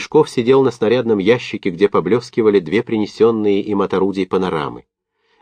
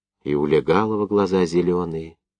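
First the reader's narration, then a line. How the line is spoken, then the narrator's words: Whispered. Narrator (Russian): шептом проговорил Парохонько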